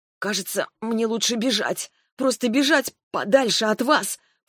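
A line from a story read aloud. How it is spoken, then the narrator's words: Hoarse rasp. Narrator (Russian): просипела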